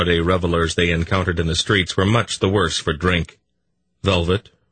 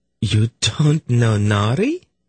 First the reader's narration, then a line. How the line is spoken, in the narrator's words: Velvet exclaimed